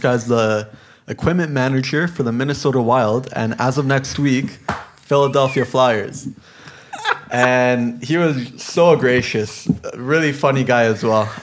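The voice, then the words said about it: Canadian accent. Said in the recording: “you got the Canadian accent”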